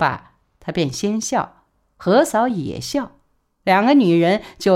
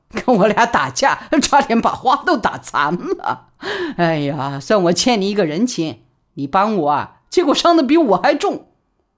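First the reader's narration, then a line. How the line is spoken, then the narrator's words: Cackling laughing woman. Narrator (Chinese): 何嫂就嘎嘎的大笑，说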